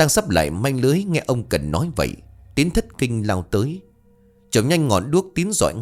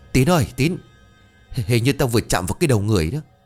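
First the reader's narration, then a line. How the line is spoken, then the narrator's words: Breathless, stammering. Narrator (Vietnamese): Bằng một giọng hồn hển, ông ú ớ lắp bắp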